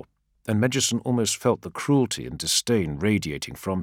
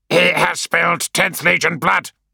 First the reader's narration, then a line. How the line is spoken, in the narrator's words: spat another, as the mood of comradeship Medjuson had worked hard to foster grew fractious